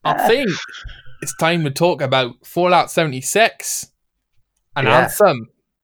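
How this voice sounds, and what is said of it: Put-on Scottish accent, fairly good. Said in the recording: “my Scottish accent ... this Scottish accent's coming out a lot better than I thought it would ... It's not bad ... That's pretty good”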